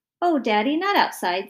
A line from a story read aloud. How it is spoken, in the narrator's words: Stevie said